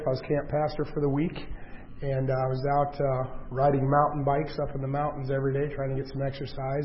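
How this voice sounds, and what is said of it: Weak, hoarse voice from laryngitis. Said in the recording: “Lost my voice about 3 weeks ago. Laryngitis ... So I was coughing a lot and speaking a lot ... a lot of people have been praying that this will come back and that you'll be able to hear me”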